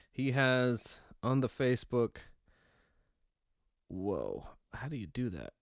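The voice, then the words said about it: Imitates another person's voice. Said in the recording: “I'll read here in my imitation ... Jean Claude Van Damme”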